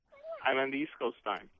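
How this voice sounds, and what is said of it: Slight Jamaican accent. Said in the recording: “Jamaicans ... Detected a slight accent.”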